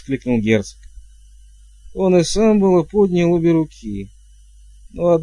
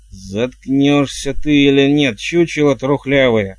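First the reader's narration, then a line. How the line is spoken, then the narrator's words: Growling mother. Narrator (Russian): прорычала матушка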